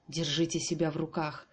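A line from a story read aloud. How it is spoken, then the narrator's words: Hissing doctor. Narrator (Russian): зашипел в мой адрес врач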